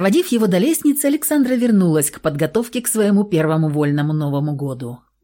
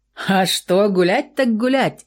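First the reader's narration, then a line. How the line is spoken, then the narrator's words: Young man laughing. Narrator (Russian): засмеялся парень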